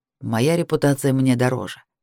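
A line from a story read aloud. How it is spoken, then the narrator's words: Calm man. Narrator (Russian): спокойно произнес мужчина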